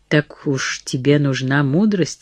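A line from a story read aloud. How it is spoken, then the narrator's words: Plain. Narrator (Russian): спросил он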